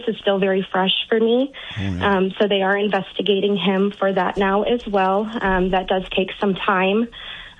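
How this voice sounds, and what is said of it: Shaky, emotional voice. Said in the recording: “my voice is a little shaky”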